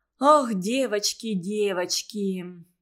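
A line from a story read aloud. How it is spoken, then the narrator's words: Sighing. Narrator (Russian): Вздохнула Валя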